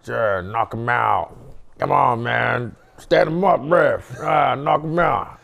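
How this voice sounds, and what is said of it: Put-on American accent. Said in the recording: “That's a pretty good American accent.”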